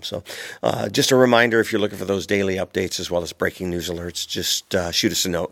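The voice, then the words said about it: Congested voice from a cold. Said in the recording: “you could probably tell that I've got a little bit of a cold ... I still got a little bit of a cold”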